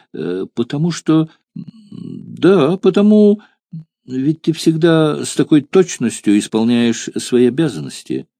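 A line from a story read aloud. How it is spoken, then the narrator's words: Rash reply. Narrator (Russian): опрометчиво ответила девушка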